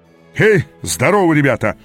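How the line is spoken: Booming. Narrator (Russian): прогремел он

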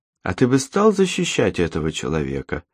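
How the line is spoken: Soft question. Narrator (Russian): мягко спросила Татьяна

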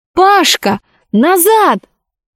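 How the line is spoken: Alarmed urgent shout. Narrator (Russian): Алиса, понимая, что произойдет, если Пашка сейчас поднимет голову и увидит вблизи робота, закричала

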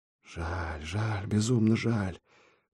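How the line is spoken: Sorrowful muttering. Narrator (Russian): горестно бормотал Ильич

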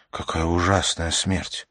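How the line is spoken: Whispered. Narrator (Russian): Она прошептала

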